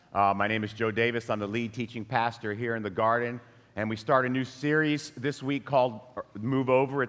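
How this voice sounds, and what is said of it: Low voice from a cold. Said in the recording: “I'm having a little cold... my voice is a little low”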